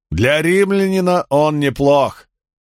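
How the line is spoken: Shouted. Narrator (Russian): крикнул Спартак

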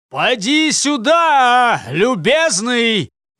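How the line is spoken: Sudden rough shout. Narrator (Russian): прокричал вдруг Джаргул какому-то возничему своим грубым тоном

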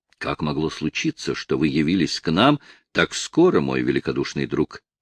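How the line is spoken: Plain. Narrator (Russian): спросил он

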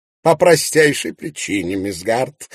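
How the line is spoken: Mocking declaration. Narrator (Russian): насмешливо заявил Ноэль Ванстоун

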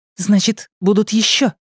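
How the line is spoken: Excited question. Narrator (Russian): взволнованно спросила Ильва

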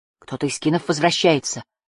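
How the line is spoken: Breathed out. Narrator (Russian): выдохнул он

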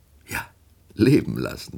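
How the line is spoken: Laughing. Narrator (German): lachte Woldemar

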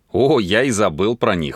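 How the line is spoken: Guilty laugh. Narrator (Russian): виновато засмеялся он

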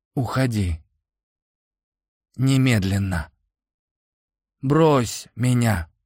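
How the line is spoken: Wheezing. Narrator (Russian): просипел Денис

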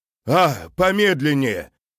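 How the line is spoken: Shout. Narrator (Russian): прокричал Антон

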